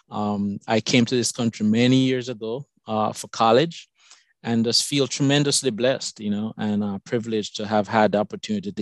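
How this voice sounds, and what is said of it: Jamaican accent. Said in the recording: “My accent is from Jamaica.”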